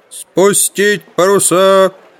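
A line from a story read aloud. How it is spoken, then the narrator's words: Loudspeaker roar. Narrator (Russian): взревел динамик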